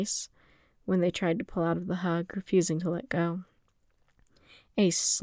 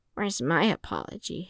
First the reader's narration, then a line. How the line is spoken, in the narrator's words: Ace grumbled